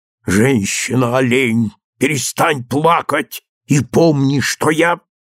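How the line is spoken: Angry hiss. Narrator (Russian): Бабушка сердито прошипела

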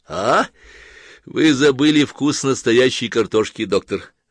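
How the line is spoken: Laughing. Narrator (Russian): засмеялась Дженни

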